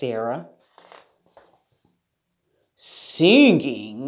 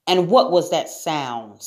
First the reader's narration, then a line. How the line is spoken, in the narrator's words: snapped Lion